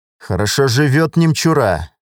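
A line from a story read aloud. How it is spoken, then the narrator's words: Angry statement. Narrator (Russian): зло сказал, увидев все это богатство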